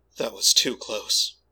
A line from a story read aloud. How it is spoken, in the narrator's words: he mumbled, ashen-faced